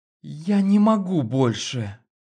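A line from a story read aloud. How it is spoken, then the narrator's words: Moaning into ear. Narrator (Russian): Простонала в ухо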